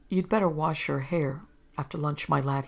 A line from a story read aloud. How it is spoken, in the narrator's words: he said